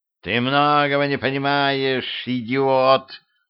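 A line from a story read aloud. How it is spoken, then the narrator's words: Old woman growling. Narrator (Russian): прорычала бабка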